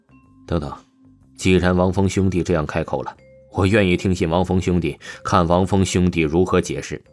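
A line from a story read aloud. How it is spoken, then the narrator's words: Cold, disappointed, distant. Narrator (Chinese): 柳若飞冷冷看着王峰，极其失望而又疏远的出声道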